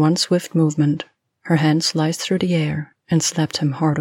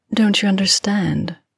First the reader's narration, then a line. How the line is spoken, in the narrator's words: she purred